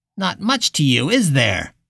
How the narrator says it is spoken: God said, roughly

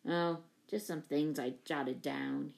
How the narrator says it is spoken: he mumbled

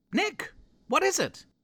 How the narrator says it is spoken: Tracy shouted back

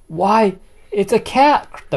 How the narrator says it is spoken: the birds cried

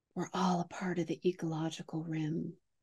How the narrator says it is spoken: he whispers to her

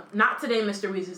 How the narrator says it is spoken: said Dumbledore

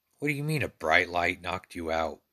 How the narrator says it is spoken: Bill asked

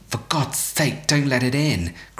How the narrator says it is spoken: cried the old man, shaking with fear

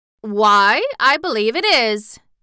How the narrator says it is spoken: exclaimed the Tin Woodman, as if surprised

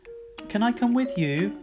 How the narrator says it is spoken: Rory whined

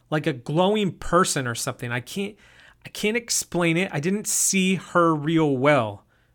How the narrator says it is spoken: Jason answered in a frustrated tone

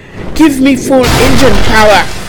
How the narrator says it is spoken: Jeremie shouted

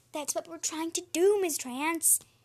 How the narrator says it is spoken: Bean said sweetly

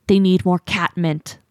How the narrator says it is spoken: Leafpool hisses, so quietly only Jaypaw could hear

